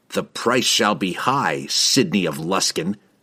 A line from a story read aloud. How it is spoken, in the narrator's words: he snarled